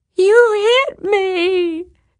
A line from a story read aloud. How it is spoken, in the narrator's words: she wailed